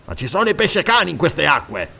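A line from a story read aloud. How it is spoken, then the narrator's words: Grumbled. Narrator (Italian): brontolò Zaporavo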